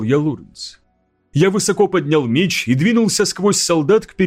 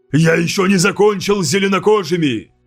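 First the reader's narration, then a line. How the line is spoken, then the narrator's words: Shouted. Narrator (Russian): крикнул я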